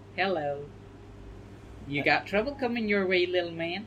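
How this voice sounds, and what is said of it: Put-on character voice. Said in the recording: “putting on the voice ... It's like voice filtering. It's like activating Dolly voice filter.”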